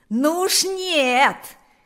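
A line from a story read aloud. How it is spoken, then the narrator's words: Loudest shouting. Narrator (Russian): кричал громче всех Панас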